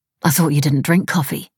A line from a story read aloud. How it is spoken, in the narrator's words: Mira said